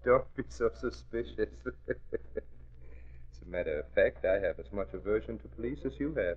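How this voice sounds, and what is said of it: Slight accent. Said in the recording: “You talk with a slight accent, so I know you're not a copper.”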